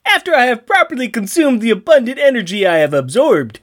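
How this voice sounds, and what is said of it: Failed attempt at New Jersey accent. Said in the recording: “So that was a Rocky and Bullwinkle or a Bob and Doug McKenzie... I was heading towards a New Jersey accent and I missed”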